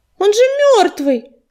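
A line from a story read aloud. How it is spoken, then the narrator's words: Exclamation. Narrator (Russian): воскликнула Листвечка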